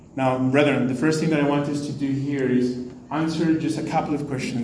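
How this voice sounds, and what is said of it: Speaks with an accent. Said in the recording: “bear with my accent, please.”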